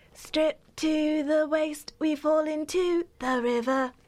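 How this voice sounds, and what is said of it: Imitates a singer's voice. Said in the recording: “I do an Ellie Goulding impression ... That is my Ellie Goulding impression ... That's very good.”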